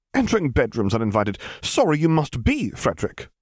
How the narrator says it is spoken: cried the vampire

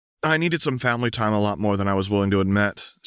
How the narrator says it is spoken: said Anna

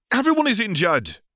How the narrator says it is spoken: cried Dean Thomas

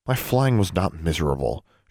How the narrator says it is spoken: she muttered sullenly

